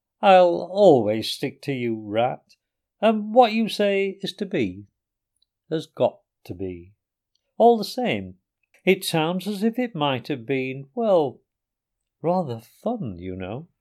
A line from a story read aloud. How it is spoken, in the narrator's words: he added wistfully